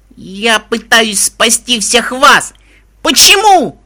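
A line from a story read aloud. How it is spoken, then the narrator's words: Angry yell. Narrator (Russian): заорала я на них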